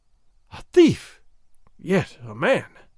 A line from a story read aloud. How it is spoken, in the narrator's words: she breathed